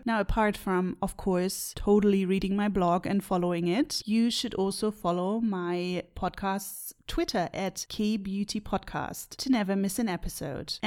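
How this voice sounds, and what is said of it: German-accented English. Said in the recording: “my strange German accent”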